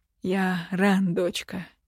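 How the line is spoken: Relieved exhale. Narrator (Russian): с облегчением выдохнул лор

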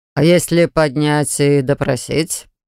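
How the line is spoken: Suggesting. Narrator (Russian): предложил другой маг

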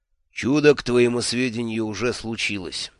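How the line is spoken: Dry, the boss. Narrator (Russian): сухо сказал шеф

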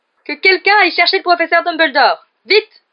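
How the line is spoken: Suddenly shrill. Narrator (French): dit alors Percy d'une voix soudain aiguë

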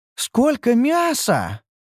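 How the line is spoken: Delighted exclamation. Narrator (Russian): восторженно воскликнула Ньюру

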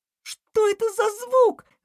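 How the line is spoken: Terrified young hedgehog screaming. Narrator (Russian): в ужасе закричала ежинка

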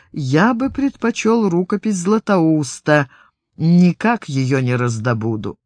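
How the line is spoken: Quiet. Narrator (Russian): Фома тихо произнес

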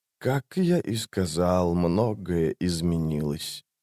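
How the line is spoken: Quiet. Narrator (Russian): тихо сказал Крул

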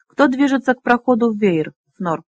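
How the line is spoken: Calm question. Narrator (Russian): спокойно спросил новый предводитель

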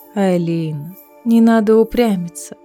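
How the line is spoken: Almost tender. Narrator (Russian): почти ласково сказала Мэва

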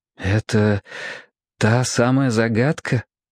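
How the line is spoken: Timid question. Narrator (Russian): робко спросил

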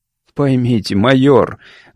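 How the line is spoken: Sigh. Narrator (Russian): Гарвуд вздохнул

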